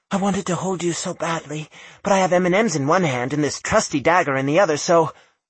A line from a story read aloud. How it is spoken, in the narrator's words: she breathed